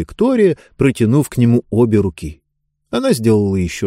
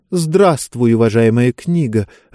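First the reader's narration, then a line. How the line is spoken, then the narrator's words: Timid greeting. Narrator (Russian): робко приветствовала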